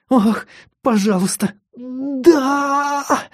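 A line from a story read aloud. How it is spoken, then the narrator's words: Whimpering. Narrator (Russian): захныкала она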